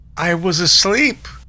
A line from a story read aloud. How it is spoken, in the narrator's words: cried Mr